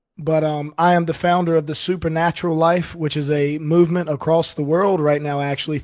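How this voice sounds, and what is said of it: Voice not fully recovered. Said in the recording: “my voice is still not 100%”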